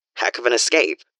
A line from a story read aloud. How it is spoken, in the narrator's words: he says, rueful